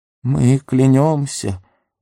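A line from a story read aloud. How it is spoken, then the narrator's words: Offended mumbling. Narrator (Russian): обиженно забормотал Горлум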